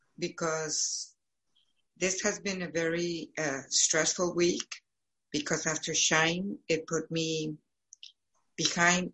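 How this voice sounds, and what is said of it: Hoarse, fading voice. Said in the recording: “I'm losing my voice, which is terrible.”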